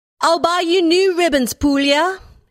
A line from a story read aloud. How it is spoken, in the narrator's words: cried